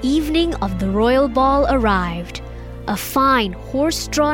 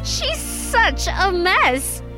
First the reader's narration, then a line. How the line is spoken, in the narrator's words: all of them laughed